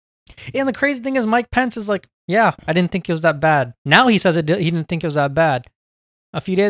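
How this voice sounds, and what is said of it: Usual voice. Nothing is said of it.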